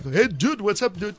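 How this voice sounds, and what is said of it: British Pakistani accent imitating rapper slang. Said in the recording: “a British accent from a Pakistani trying to imitate Tupac”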